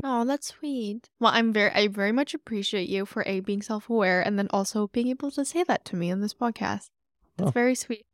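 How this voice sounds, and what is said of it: Emotional, slightly teary voice. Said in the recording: “I'm getting a little teary-eyed.”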